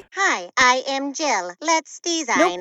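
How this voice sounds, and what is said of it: Robot voice. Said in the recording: “do a robot voice”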